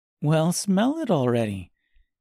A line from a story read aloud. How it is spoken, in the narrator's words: said Gracia with an encouraging laugh